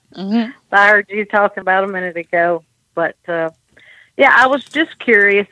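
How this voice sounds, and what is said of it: Southern US accent. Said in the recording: “I'm in Tennessee ... you should know from that accent ... We like to say y'all and yonder”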